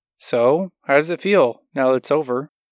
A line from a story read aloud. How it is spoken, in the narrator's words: Tracy asked